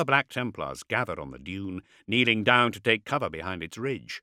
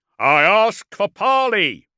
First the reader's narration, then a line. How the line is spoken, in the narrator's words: shouted Kalkator